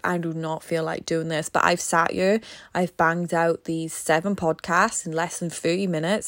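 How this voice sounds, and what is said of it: Strained, tired-sounding voice. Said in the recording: “You could hear it in my voice. It's strained.”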